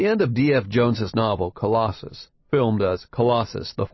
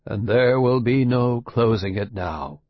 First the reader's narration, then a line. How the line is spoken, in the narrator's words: the old scientist says gloomily